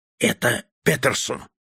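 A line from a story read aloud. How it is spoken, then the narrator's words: Whispered. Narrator (Russian): прошептал старший студент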